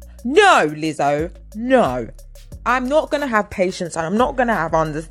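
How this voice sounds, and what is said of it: Usual voice. Nothing is said of it.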